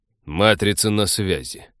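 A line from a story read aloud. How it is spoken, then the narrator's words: Dry announcement over screen. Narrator (Russian): сухо объявил с виртэкрана человек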